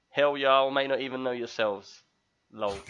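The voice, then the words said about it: Put-on American accent. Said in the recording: “The American accent.”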